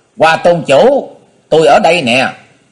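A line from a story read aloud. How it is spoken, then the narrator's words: Loud, bold. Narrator (Vietnamese): Cái nghĩa khí đó có chút bất phàm, nên hắn lập tức lớn tiếng nói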